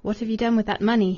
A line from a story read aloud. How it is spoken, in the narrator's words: asked, in a cold voice